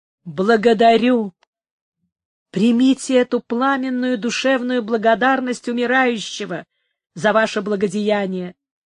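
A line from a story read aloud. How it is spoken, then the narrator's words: Muffled exclamation, dying man. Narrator (Russian): воскликнул граф глухо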